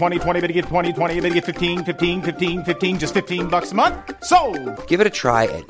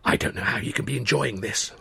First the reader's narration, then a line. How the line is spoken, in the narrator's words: I whispered